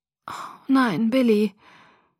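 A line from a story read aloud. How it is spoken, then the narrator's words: Groaning. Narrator (German): stöhnte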